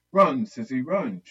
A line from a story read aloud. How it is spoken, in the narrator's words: shouted as she ran fast